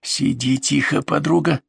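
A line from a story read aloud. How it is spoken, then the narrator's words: Whisper. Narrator (Russian): шепнула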